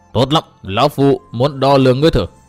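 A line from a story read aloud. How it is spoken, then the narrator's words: Harsh menacing voice. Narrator (Vietnamese): Đông Môn Nghiêu gằn giọng nói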